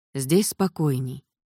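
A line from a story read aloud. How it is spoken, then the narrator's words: Soft speech. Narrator (Russian): мягко сказал Введенский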